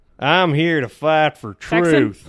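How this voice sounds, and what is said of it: Put-on Southern US accent. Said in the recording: “Just Southern US”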